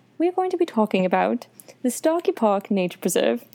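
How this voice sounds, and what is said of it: Put-on British accent. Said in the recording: “I just automatically went into this British accent”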